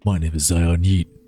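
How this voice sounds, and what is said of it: Deep voice. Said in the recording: “My deep voice is coming through the mic.”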